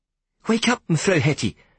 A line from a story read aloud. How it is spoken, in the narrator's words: I begged